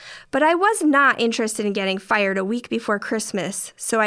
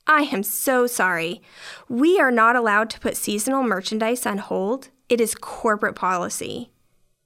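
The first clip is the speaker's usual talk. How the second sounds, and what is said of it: Polite customer service voice. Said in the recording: “in my best customer service voice”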